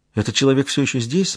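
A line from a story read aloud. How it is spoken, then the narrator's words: Trembling question. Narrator (Russian): спросила она дрожащим голосом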